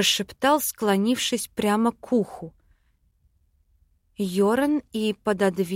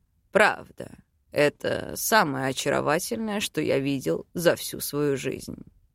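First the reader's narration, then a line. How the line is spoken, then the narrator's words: Purring into ear. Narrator (Russian): мурлыкнул, лаская дыханием раковину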